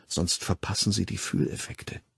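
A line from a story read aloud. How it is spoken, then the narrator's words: Whispered. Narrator (German): flüsterte Lenina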